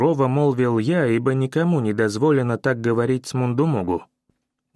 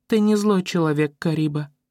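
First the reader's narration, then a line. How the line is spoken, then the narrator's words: Sad. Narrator (Russian): грустно сказала она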